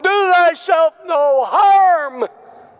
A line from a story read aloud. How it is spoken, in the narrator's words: Paul hollered out